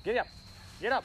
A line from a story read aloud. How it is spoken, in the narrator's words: Almanzo kept shouting